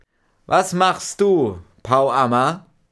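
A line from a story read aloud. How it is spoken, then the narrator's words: Loud call. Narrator (German): rief laut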